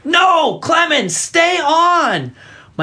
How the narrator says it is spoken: the coach shouted

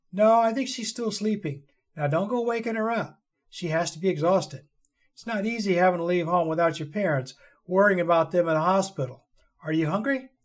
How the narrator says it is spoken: Carrie laughed at her final comment

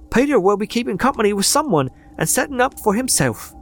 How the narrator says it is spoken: cried one of the girls

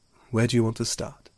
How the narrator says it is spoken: she sighed

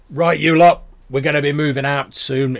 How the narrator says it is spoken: the grey-bearded figure shouts

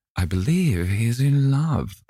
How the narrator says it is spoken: cried Lady Narborough

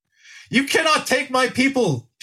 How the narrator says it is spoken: shouted Typicles

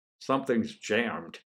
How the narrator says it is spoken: muttered

